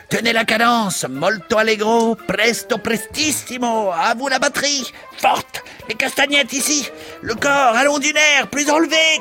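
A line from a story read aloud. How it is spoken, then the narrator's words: Shouting. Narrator (French): criait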